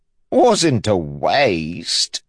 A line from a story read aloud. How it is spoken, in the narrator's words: the champ said, chuckling